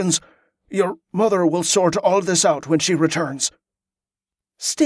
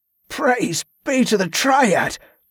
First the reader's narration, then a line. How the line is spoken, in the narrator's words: Barza gasped in relief